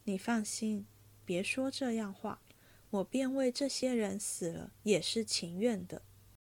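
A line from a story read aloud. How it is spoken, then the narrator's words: Long sigh. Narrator (Chinese): 宝玉听说，便长叹一声道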